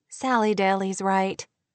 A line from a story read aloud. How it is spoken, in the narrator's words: Kate said with a light laugh